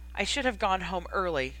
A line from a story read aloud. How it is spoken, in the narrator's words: had muttered to herself